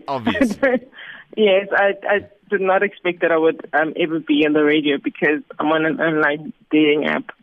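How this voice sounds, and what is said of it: Smooth, sexy radio voice. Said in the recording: “you have a good radio voice ... You've got like that sexy ... There's a sexiness”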